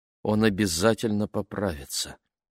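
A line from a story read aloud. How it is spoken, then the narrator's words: Mumbling. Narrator (Russian): пробормотала Али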